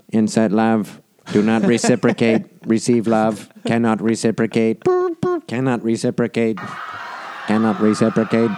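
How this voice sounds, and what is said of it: Robot voice. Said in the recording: “My father is the TX-7. He's a robot ... impersonate my father”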